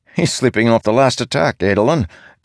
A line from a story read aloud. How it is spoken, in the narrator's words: Kolot said with a chuckle